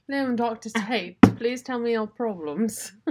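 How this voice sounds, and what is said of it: Put-on slight British accent. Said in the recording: “I don't know what accent that was. ... It was a little bit of a British accent.”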